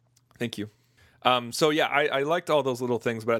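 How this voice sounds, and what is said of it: Usual voice. Nothing is said of it.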